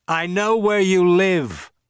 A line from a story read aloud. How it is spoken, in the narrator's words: shouted